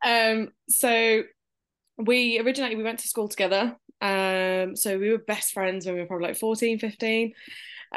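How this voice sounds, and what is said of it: Birmingham English accent. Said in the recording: “we're from Birmingham, UK, if I couldn't tell by the accent.”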